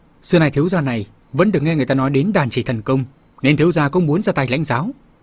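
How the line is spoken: Angry. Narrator (Vietnamese): Vương Mai giận dữ nói

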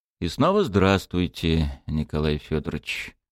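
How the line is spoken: Thoughtful mutter. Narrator (Russian): задумчиво пробормотал Болдин

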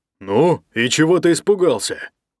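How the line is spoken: Grumbling. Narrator (Russian): проворчал Ник

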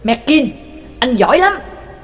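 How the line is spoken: Furious resentful roar. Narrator (Vietnamese): tiếng gầm bao hàm cả phẫn nộ lẫn oán hận ấy của Xoa

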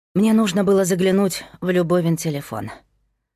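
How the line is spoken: Sighing. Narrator (Russian): вздохнула Кира

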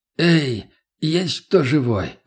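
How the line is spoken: Hoarse call. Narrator (Russian): хриплым голосом позвал я

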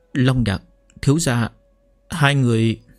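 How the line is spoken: Stammering. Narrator (Vietnamese): Thanh Hà lắp bắp

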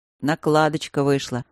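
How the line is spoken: Grumble aside. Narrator (Russian): проворчал барон уже в сторону Алекса и Макса

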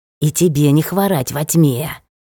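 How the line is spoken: Snarling hiss. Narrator (Russian): прошипел, оскалившись, ёж

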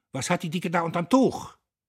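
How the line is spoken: Sudden shout. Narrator (German): schrie er plötzlich

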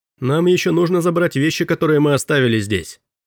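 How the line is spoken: Shouting after someone. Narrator (Russian): крикнул Робби в спину быстро удаляющегося мистера Дэвиса

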